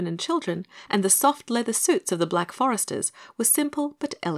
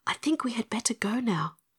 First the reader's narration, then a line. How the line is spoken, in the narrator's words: whispered Dorothy earnestly